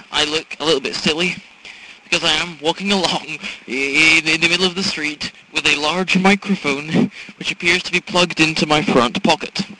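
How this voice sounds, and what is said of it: Annoying put-on accent. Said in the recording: “I'm talking into it in an annoying accent.”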